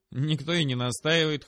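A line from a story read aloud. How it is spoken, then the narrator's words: Snorting grunt. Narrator (Russian): хмыкнул Сэм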